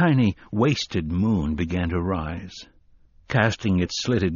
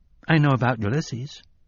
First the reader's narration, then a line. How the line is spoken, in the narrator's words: Jake said hesitantly